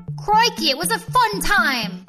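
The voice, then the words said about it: Put-on Australian accent. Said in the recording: “are you really trying to use an Australian accent?”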